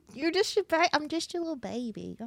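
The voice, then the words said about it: Baby voice. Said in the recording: “do a baby voice ... in a baby voice”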